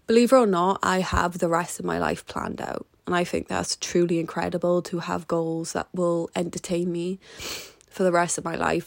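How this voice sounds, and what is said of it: Emotional voice. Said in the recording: “a very emotional episode, and you will continue to hear the emotion in my voice.”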